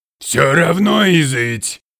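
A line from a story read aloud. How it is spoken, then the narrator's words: Roar. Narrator (Russian): взревел купец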